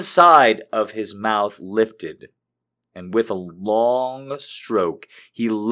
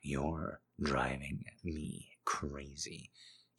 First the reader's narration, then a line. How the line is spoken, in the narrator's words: whispered